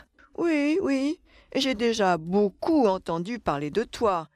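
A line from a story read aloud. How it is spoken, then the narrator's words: Laughing reply. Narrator (French): répondit grand-père Baleine en riant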